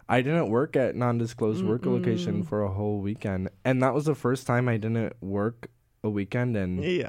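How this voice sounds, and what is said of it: Crunchy, rough sick voice. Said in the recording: “Know if you can hear in my voice, it's a little bit crunchy”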